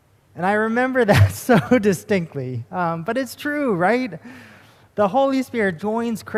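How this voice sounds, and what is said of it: Usual voice. Nothing is said of it.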